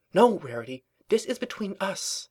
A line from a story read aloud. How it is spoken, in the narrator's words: she hissed urgently